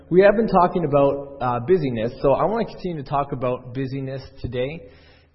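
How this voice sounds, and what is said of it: Raspy, sick-sounding voice. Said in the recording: “Sorry about my voice today. I'm sick. ... my voice may sound a little raspy or cut in and out here and there”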